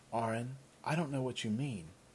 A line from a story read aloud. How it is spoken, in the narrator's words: Chandra said quietly